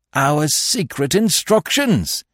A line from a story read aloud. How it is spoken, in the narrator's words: he cried